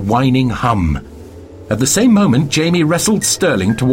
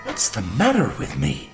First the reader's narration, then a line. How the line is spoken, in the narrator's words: She gasps